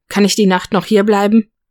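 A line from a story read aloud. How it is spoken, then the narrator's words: Calling after someone. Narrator (German): rief Nick ihm hinterher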